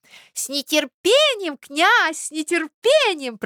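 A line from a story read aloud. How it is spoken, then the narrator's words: Squeaky voices. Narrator (Russian): пропищали другие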